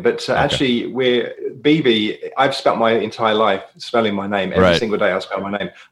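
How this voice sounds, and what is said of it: British accent. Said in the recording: “you weren't born in America ... You didn't pick up that accent from watching Peaky Blinders”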